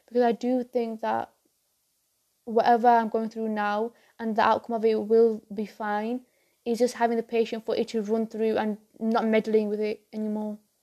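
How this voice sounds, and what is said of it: Tired, weary voice. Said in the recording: “you can tell by my voice. But I'm just, I'm really tired”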